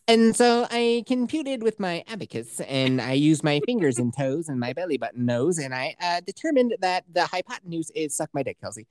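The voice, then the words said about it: Nerdy put-on voice. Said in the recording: “Can you say that like with a nerd voice?”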